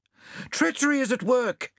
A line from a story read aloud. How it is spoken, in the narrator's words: shouted